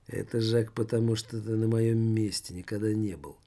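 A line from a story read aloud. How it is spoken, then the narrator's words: Gloomy. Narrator (Russian): мрачно проговорил Жор-людоед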